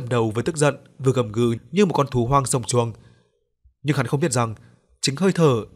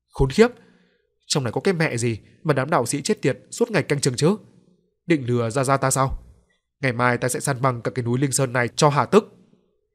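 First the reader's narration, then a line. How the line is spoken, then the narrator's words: Harsh, gritted voice. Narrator (Vietnamese): gằn giọng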